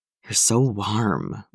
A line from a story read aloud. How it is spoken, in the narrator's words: Bucky muttered